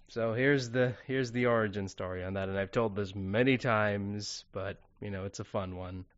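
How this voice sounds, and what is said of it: American accent. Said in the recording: “you definitely have an American accent”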